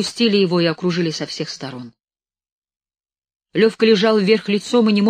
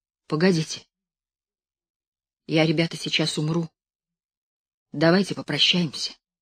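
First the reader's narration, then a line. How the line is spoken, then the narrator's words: Sudden quiet. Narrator (Russian): Левка вдруг тихо произнес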